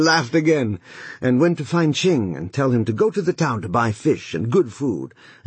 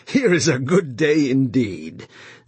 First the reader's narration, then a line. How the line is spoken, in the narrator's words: he laughed, and he rubbed his hands together, and said